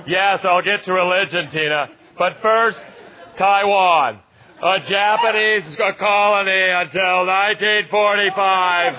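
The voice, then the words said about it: Shouting, uncontrolled pitch and volume. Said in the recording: “Your voice. ... You're shouting. ... unable to control the pitch or volume of my voice”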